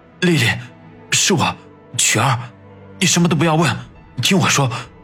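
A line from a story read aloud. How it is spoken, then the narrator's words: Trembling voice. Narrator (Chinese): 曲二声音颤抖地说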